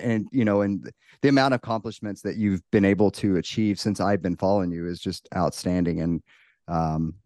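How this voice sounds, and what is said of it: Emotional, choked-up voice. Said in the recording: “getting choked up”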